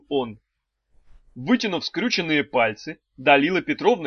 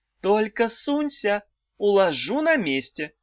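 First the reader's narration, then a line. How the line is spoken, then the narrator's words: Calm warning. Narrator (Russian): спокойно предупредила ведьма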